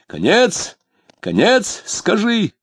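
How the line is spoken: Shouted. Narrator (Russian): закричал он

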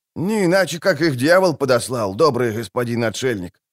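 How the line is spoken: Grumbling peasant. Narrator (Russian): проворчал кмет

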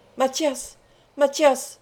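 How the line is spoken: Terrified cry. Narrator (French): s'écria Étienne Bathory, sous une impression de terreur dont il ne fut pas maître

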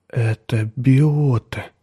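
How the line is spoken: Mutter. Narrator (Russian): пробормотал тот

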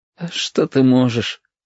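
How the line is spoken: Smiling through tears. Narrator (Russian): улыбнулся сквозь слезы Стасик

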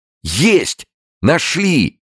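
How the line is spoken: Shouting. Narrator (Russian): заорал прапор

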